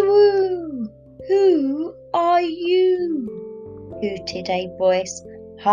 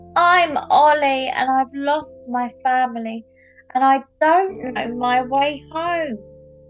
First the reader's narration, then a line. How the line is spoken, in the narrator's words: Ollie squeaked